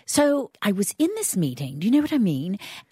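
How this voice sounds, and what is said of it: Put-on British accent. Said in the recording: “the Brits do this thing ... Will you use your accent and do it? You're so good with accents.”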